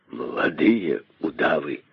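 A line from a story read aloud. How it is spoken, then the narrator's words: Hopeless sarcastic exhale. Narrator (Russian): выдохнул с безнадежным сарказмом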